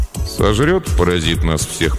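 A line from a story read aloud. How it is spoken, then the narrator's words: Gloomy grumble. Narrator (Russian): проворчал он хмуро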